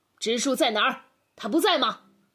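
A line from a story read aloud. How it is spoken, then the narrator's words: Father's voice trembling with anger. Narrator (Chinese): 爸爸的声音由于愤怒而有些颤抖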